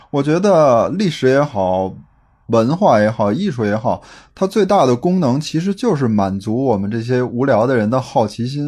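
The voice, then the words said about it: Old Beijing accent. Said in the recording (Chinese): “各位如果听到他这个口音，就知道，哎，老北京啊”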